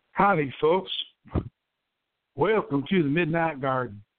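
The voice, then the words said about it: Badly done put-on accent. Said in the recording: “that accent... it's so bad... I've done it so badly that it probably doesn't actually exist”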